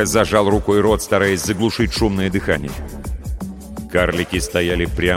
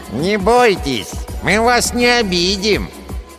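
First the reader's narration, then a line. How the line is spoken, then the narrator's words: Nasal dwarf voice. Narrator (Russian): прогнусавил второй карлик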